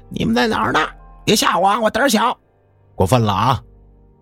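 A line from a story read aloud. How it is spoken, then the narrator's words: Frightened shouting. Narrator (Chinese): 从脚凉到头，浑身开始炸毛，就开始喊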